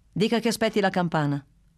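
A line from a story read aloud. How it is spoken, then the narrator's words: Curt, sharp reply. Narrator (Italian): rispose Bruno, così seccamente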